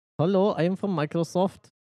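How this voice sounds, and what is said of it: Poor put-on Indian accent. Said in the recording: “presumably Indian scam callers... I can't do a good accent... Really bad.”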